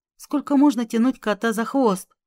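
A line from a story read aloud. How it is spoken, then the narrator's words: Sighing. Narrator (Russian): вздохнул Леонид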